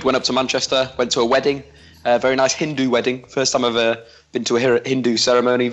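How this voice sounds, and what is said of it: Strained, failing voice. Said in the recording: “my voice is slowly dying”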